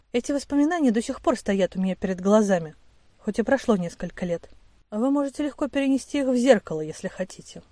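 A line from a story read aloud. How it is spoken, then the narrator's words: Soft, smiling. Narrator (Russian): мягко улыбнулся декан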